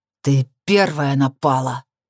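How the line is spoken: Growled reply. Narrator (Russian): рыкнул он в ответ

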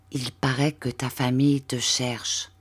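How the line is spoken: Reassured, half-voiced, smiling. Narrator (French): Rassurée, à mi-voix, avec le sourire sur le visage

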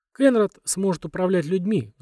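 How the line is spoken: Sighing. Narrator (Russian): вздохнул Гарден

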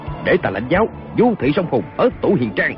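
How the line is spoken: Stern shout. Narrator (Vietnamese): Kiều Phong quát lên

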